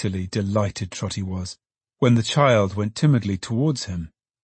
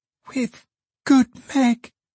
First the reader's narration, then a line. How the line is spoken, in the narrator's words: cried the child